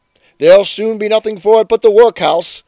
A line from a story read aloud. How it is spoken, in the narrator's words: he exclaimed, as he frequently did